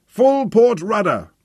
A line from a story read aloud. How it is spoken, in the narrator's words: the commander bellowed